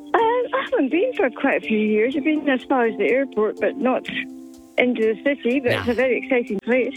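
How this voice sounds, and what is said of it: Scottish accent. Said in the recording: “I think I detect an accent ... Scotland ... you got the Scottish heritage”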